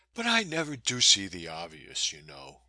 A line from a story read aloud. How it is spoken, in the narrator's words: she laughed back